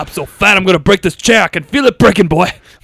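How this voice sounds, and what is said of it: Put-on southern accent impression. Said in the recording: “You Colonel Sanders accent now.”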